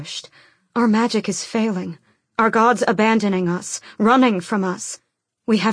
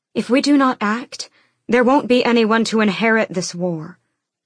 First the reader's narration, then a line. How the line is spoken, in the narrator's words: Elena said